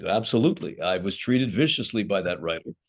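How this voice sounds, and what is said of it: Imitates another person's voice. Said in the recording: “it sounds like my Robert Evans impression.”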